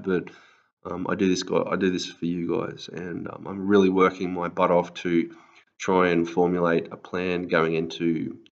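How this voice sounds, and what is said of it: Raspy, tired-sounding voice. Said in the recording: “my voice is a bit raspy or I sound a bit tired, because I actually am tired”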